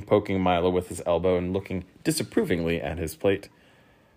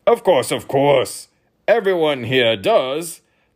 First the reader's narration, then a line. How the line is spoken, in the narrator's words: the king grunted